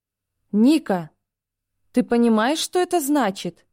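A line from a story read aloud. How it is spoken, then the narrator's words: Exclaiming. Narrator (Russian): воскликнула подруга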